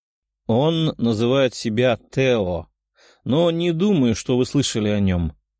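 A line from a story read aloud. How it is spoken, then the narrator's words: Calm demon reply. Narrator (Russian): спокойно ответил демон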